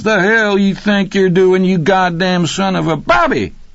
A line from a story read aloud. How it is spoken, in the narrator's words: Rocky yelled, his delight nearly orgasmic